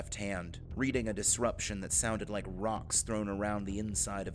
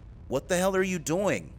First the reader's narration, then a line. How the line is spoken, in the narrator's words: Casey yelled